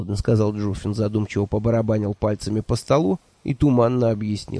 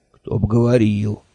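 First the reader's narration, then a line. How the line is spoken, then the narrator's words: Sighing. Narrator (Russian): вздохнул Джуффин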